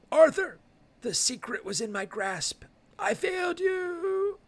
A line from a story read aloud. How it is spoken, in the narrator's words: Percival gasps and says